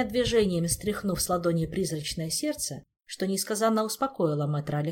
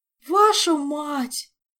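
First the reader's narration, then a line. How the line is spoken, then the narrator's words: Mournful distant groan. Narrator (Russian): горестно простонал он оттуда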